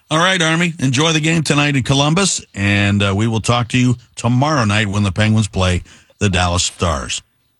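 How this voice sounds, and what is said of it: Smooth FM radio announcer voice. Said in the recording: “you sound great ... I've got my FM voice tonight ... I'm going with the FM radio voice tonight”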